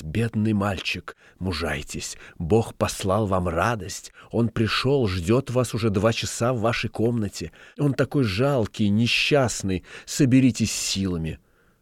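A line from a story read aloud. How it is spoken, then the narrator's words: Old woman whispering. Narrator (Russian): старуха стала шептать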